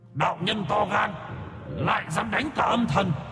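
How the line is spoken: Roaring, many spirit voices. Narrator (Vietnamese): Âm thần từ khắp nơi gầm thét

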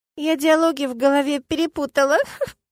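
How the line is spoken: Giggling under breath. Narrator (Russian): хихикает себе под нос

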